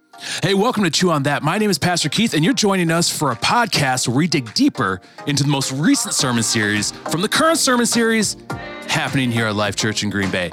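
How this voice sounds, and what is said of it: Announcer-style radio voice. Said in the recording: “I like your radio voice ... It's my radio voice ... What I'm doing is a radio voice”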